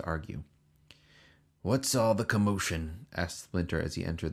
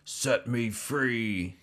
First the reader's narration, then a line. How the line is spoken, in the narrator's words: he roared